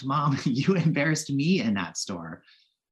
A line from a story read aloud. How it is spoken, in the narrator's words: I laughed